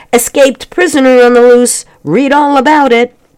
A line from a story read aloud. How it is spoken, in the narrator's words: the paperboy shouting